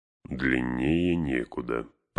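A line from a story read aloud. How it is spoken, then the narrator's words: Grumbling. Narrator (Russian): проворчал Гэндальф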